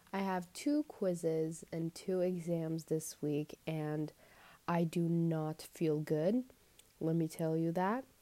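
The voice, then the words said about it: Tired-sounding voice. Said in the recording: “I sound tired, that's probably because I am.”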